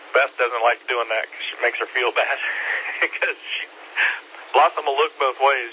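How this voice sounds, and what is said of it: Scratchy, hoarse voice. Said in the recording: “my throat's getting scratchy and I'm losing my voice”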